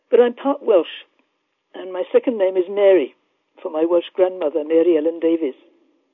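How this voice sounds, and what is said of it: English accent. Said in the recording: “I was born and raised in England, as you can tell from my voice.”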